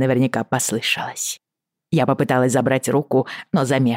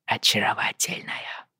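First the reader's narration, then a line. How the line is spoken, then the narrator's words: Quiet. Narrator (Russian): тихо произнес Уайли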